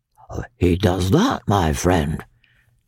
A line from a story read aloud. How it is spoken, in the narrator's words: replied the Count quietly